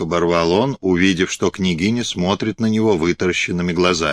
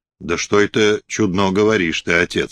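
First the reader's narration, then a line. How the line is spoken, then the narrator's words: Plain. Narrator (Russian): сказала она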